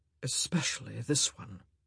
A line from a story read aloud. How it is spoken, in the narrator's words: he said, his voice dropping to an impossibly low purr